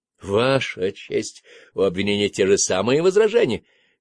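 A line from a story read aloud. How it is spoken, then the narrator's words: Exclaimed. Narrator (Russian): воскликнул Бергер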